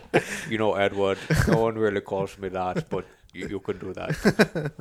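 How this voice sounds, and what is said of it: Impression with odd mixed accent. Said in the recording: “That's a funny accent you've got there... why are you making him sound like a... You're making him sound like Sean Connery and Hitler at the, like, mixed together... That's exactly what he sounds like.”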